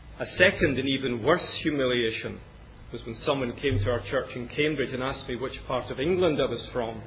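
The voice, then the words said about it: Educated Scottish Glasgow accent. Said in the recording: “when you're Scottish... I'm very conscious that my accent probably betrays me... my educated Glasgow accent”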